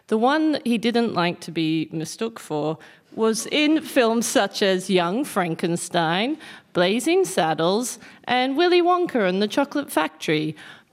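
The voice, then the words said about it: Strong Australian accent. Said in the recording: “I know that you have an Australian accent, but that was too much of an Australian accent”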